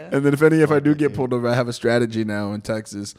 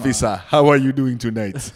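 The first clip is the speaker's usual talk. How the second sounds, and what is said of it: Put-on accent. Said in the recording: “you can't give a ticket to an accent.”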